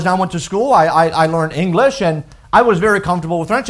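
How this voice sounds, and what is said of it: French-accented English. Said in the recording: “I grew up in the country of France, and many of you know that was my first language ... your accent is a little different”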